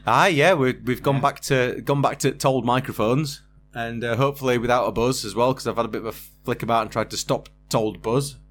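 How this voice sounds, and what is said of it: Yorkshire accent. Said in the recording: “Doesn't sound right in a Yorkshire accent ... apart from Yorkshire accent”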